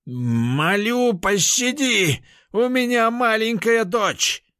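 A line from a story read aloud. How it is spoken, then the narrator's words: Roared. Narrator (Russian): взревел Лис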